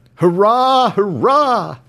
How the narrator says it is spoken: cried the whole crew of the Dolphin unanimously

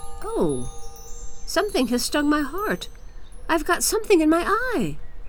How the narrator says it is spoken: Kai exclaimed

